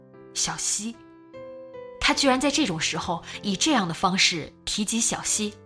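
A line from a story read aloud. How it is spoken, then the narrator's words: Mischievous low voice. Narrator (Chinese): 他带着恶作剧的神情，压低声音说道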